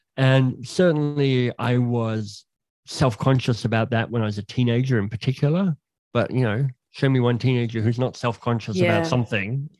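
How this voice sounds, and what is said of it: Slight leaky speech impediment. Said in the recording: “it creates a little bit of a speech impediment. So you can probably hear that in my voice. It's a bit leaky around things.”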